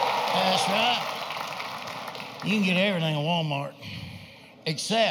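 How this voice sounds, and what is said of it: Usual voice. Nothing is said of it.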